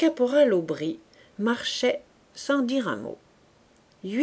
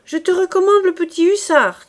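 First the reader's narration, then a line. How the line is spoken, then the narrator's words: Woman shouting. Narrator (French): cria la cantinière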